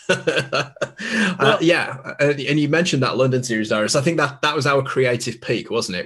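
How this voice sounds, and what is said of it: Cumbrian British accent. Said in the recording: “we do not have your quintessential British accent ... I am like the British equivalent of like a Southern yokel in terms of my accent ... You don't know what a Cumbrian sounds like, but trust me, it's the version.”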